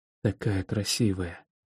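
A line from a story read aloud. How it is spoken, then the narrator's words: Whisper. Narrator (Russian): шепчу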